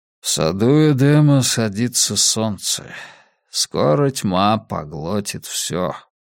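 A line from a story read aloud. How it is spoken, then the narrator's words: Tired. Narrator (Russian): устало ответил Скотт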